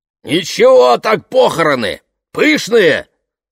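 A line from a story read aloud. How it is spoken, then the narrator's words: Loud declaration. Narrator (Russian): громко заявил чокнутый Эрл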